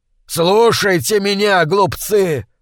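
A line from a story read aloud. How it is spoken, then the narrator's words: Shouting. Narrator (Russian): закричал Бонифаций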